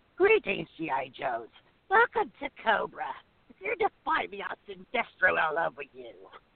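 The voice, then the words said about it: Cartoon villain character voice. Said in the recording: “I can do Cobra Commander”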